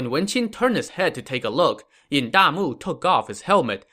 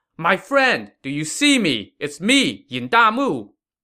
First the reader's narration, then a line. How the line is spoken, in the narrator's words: Yin Damu shouted